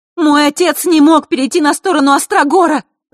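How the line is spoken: Heated shout. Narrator (Russian): запальчиво выкрикнула Василиса

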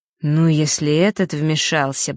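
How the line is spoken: Said through gritted teeth. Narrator (Russian): процедил Фэш

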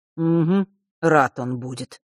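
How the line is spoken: Grumbling mutter. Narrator (Russian): пробурчал Миракл

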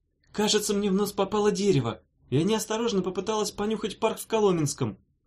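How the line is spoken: Shouted. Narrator (Russian): крикнула Дафна

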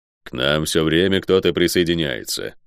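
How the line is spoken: Grumble. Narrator (Russian): проворчал Водор

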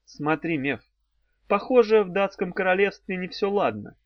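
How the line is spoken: Giggling. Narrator (Russian): хихикнула она

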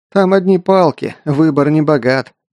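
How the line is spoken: Short laugh. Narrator (Russian): хохотнул Эрт

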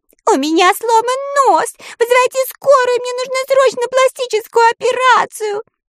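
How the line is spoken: Panicked wailing. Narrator (Russian): вопила она, паникуя

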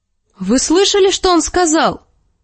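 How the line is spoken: Exclamation. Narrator (Russian): воскликнула Серсея, обращаясь к отцу

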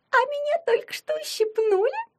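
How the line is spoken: Thin tattling voice. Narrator (Russian): Тоненьким голоском наябедничала она

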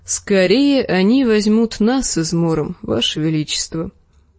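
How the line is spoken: Sad. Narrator (Russian): грустно молвил Серджурах

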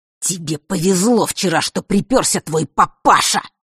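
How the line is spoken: Furious hiss. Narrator (Russian): прошипел разъяренный Марк

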